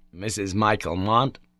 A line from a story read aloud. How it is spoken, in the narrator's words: said gravely